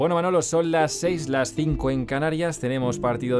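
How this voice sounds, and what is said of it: Usual voice. Nothing is said of it.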